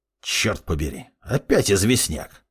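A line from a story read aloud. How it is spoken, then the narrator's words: Displeased grumble. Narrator (Russian): недовольно буркнул он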